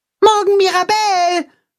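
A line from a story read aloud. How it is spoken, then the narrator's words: Called after. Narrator (German): ruft Max ihr nach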